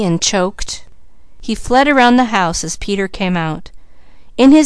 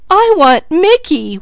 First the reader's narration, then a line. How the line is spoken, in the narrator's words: wailed Peaches